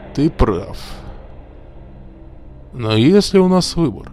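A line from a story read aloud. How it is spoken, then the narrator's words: Sighing. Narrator (Russian): Маккинон вздохнул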